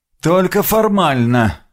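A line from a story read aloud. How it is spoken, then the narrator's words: Displeased grumble. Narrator (Russian): буркнул Грегор, явно не очень довольный моей самодеятельностью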